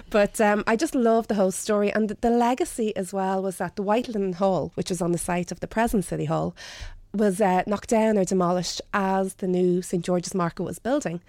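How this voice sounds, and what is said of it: Broad Dublin accent. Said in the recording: “my broad Dublin accent”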